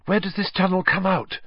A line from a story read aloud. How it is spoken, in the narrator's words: asked breathlessly